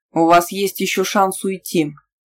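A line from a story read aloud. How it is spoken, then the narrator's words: Menacing, rising anger, prince. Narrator (Russian): грозно проговорил принц, чувствуя, как разрастается в груди огонь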